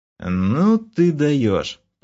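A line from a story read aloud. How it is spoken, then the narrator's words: Stunned, forced out. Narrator (Russian): потрясенно выдавил я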